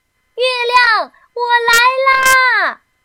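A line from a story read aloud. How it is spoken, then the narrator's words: Loud shout. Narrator (Chinese): 提莫龙大声喊道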